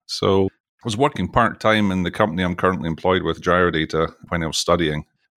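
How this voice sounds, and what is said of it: Scottish accent. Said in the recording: “you can probably tell from my accent, I'm from Scotland”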